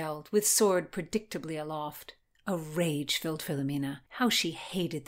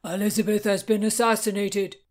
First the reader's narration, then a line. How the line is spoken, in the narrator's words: Philomena gasped, along with others amid a single shout of joy